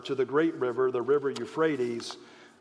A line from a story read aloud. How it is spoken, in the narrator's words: the Lord says